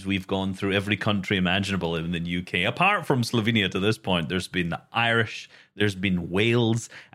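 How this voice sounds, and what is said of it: Scottish accent. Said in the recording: “detecting the accent here... either Slovenia or somewhere in Scotland... I'm Scottish”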